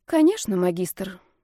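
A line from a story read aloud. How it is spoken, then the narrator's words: Sighed. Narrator (Russian): вздохнула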